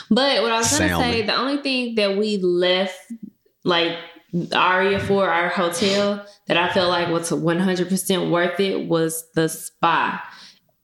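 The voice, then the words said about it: Southern US country accent. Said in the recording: “Your country accent. ... I know that country accent. ... I'm a little country. ... Memphis, big country.”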